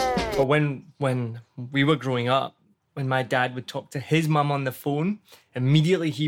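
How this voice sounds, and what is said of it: Usual voice. Nothing is said of it.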